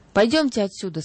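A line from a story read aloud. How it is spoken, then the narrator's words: Plain. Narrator (Russian): сказала другая бабушка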